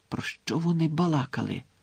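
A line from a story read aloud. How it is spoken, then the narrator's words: Whispered. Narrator (Ukrainian): зашепотів Рон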